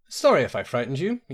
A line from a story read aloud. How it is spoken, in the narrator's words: said